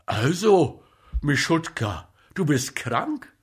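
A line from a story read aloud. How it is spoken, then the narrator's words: Excited. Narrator (German): sagte aufgeregt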